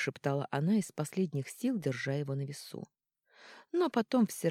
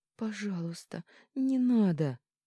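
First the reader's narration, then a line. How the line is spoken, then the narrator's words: Moaned. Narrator (Russian): простонала она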